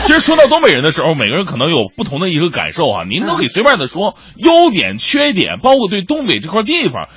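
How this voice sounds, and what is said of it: Northeastern Chinese accent. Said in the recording (Chinese): “你听我这口音，你说我浙江人，我谁相信呢？”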